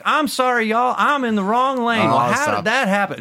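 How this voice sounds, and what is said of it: Put-on Southern American accent. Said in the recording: “I'll put on a southern accent to do that.”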